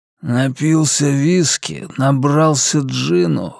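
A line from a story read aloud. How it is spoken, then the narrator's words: Hoarse rasping. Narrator (Russian): хрипел Дэйв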